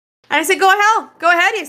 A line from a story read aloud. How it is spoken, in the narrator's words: I said in a cheerful voice